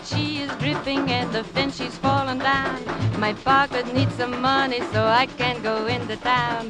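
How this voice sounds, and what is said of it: Singing in a put-on accent. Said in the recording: “Peggy Lee's put on accent. It's great. You're going to hear it.”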